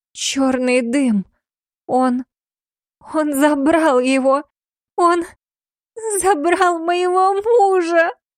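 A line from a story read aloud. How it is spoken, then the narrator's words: Sobbing. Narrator (Russian): И тут же зарыдала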